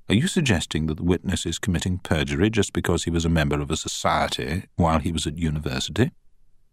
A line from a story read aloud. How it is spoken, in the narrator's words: said the judge quietly